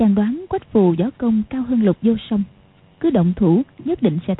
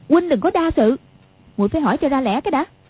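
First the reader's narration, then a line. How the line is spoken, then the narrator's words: Angry. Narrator (Vietnamese): Quách Phù đang tức giận, không rõ dụng ý của chàng, nói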